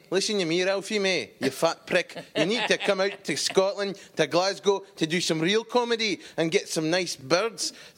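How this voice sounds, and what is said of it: Put-on Scottish accent. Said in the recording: “my Scottish cousin ... do just, the accent so good”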